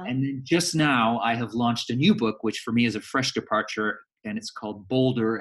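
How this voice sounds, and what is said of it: Canadian accent. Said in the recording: “So you have an accent. ... I'm Canadian. And I've done my best to hang on to my accent”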